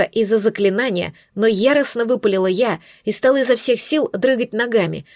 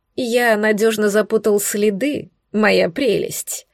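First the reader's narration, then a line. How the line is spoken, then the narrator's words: Smirking. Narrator (Russian): хмыкнул Носферату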